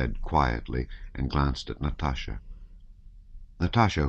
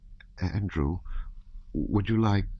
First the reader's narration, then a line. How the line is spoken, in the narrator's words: Princess Mary suddenly said in a trembling voice